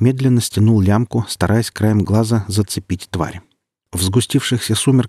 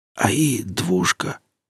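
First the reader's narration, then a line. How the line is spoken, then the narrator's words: Barely audible, resigned. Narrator (Russian): еле слышно и как-то обреченно не то спросил, не то констатировал незнакомец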